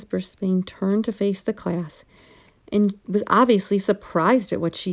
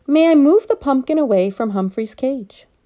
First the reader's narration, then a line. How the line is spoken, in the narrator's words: In a loud, clear voice, Sayeh said